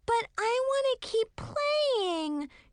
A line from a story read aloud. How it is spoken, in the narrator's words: she whined in a weak voice